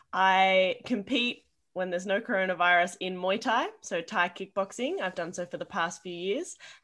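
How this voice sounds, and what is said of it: Australian accent. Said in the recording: “you can probably hear from my accent. I'm from Australia.”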